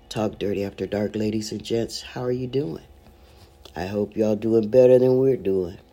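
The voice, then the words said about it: Voice sounds unwell. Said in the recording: “as you could tell by my voice, I'm half with you, too”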